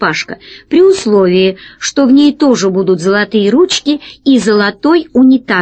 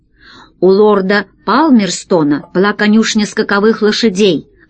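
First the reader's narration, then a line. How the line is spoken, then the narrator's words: Plain. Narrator (Russian): ответил Гайдо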